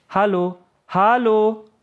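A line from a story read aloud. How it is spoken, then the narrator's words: Calling after someone. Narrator (German): rief Yahya einer Kameradin nach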